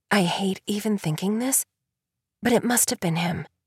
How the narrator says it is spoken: Marissa whispers

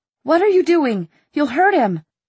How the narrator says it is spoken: Clary cried out

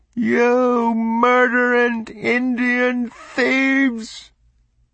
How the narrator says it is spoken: Across the stillness of the hot afternoon, Stuart Mitchell's screeching voice lashed like a whip

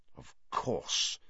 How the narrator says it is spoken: Sirius muttered

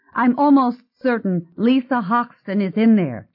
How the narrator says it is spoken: she said urgently

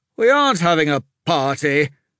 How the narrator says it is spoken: Lord Darren said through clenched teeth

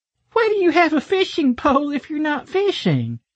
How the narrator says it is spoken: She giggled

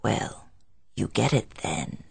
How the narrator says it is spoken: he said grimly, though in a modified tone of voice

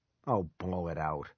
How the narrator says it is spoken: Ronnie muttered

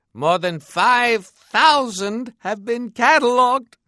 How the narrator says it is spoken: he said with enthusiasm, his voice going up an octave

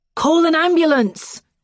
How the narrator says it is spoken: Joel shouts

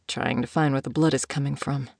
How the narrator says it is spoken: muttered

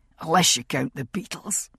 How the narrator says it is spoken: he said in his husky rasp of a voice

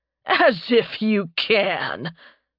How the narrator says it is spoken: Tarbin barked out a laugh

